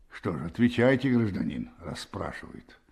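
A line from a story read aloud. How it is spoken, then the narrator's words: Hoarse voice. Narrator (Russian): сказал сбоку тот же хрипловатый голос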